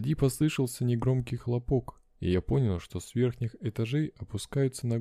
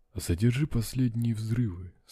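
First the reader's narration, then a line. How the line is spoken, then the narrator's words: Calm answer. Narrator (Russian): спокойно ответил проф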